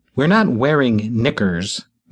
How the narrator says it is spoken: Mona snapped

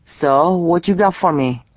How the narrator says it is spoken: Pedro asked

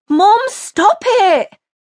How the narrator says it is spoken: Chantelle pleaded

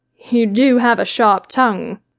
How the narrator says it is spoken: chuckled lazily

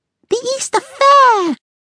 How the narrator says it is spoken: Blossom cried

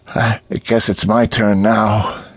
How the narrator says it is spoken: Neil said with a sigh

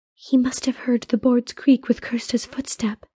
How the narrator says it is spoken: the princess whispered

